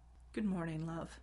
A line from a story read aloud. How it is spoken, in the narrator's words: he said softly, a little cautiously